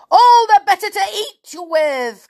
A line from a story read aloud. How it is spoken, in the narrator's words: cried the wolf